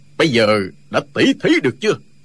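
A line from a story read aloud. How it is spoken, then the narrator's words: Loud. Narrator (Vietnamese): Trương Du Kỳ lớn tiếng nói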